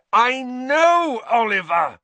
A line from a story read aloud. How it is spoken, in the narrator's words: Harry yelled